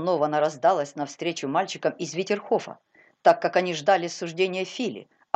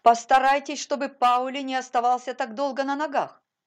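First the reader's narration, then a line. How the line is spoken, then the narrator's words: Commanding shout. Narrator (Russian): повелительно крикнула она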